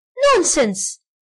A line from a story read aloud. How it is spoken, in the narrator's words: exclaimed the second voice